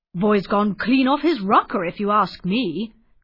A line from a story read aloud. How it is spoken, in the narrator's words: grumbled Mr